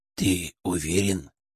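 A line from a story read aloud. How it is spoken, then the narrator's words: Whispering in ear. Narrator (Russian): зашептал мне на ухо Ферк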